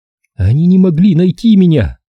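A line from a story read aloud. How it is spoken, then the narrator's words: Speaking through sobs. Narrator (Russian): продолжала между рыданиями говорить Райли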